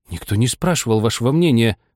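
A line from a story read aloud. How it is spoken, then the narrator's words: Exclaiming. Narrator (Russian): воскликнула Аня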